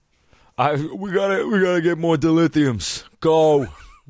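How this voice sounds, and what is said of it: Imitated Philly accent, not spot on. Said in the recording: “they have Sylvester Stallone accents ... Assumedly they're all from Philly ... It's not my best ... It's not spot on”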